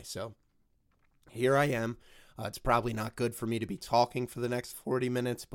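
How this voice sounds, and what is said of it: Hoarse, strained sick voice. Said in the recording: “my voice is a little altered today ... It seems like I have strep throat or bronchitis or laryngitis ... I can actually barely talk ... how terrible my voice sounds today ... as bad as I sound”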